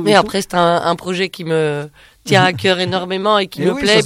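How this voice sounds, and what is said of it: Light Belgian French accent. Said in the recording (French): “c'est un petit accent qui est depuis tout à l'heure ... je suis belge”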